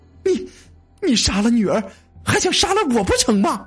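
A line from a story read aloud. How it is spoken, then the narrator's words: Shocked, frightened, angry. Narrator (Chinese): 韩太太又惊又恐又怒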